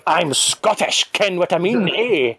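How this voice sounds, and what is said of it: Exaggerated caricature Scottish accent. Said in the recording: “my accent will get really, really strong, like some sort of caricature Scottish person”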